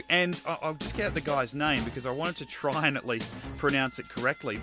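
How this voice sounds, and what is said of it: Australian accent. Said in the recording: “you've got an Australian accent”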